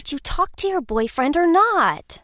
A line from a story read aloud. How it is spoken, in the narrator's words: snapped